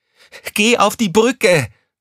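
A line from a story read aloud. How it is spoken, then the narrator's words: Shouting at someone. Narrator (German): schrie Crescentia Rausch sie an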